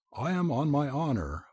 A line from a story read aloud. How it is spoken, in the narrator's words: I cried